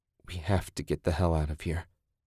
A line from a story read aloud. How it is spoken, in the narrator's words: Ted muttered